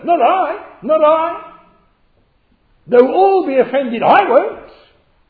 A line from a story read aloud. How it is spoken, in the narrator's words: Peter piped up